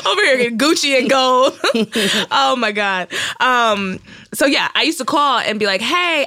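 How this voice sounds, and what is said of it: Fake Brooklyn accent. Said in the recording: “I don't know why I got this fake-ass Brooklyn accent. I need to let it go.”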